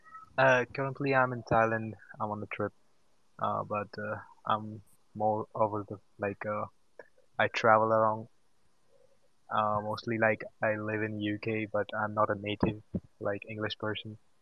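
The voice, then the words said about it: Slight non-native English accent. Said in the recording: “you've got a bit of an accident there. Are you Indian”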